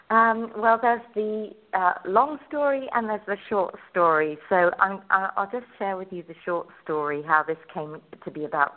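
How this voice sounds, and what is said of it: English accent. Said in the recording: “you originally came from England ... you can probably tell from my accent.”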